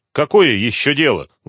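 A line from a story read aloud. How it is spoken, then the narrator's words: Rough female question. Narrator (Russian): грубо спросила женщина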